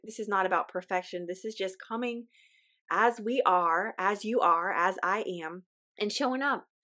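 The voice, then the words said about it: Weak voice, sounds a little off. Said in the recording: “forgive my voice. My voice is weak. I've been getting over a little sickness ... forgive me if my voice sounds a little off today”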